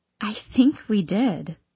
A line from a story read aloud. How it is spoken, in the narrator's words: I whisper back